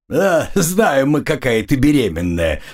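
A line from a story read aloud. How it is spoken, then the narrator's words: Laughing. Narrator (Russian): сквозь смех проговорил Низкий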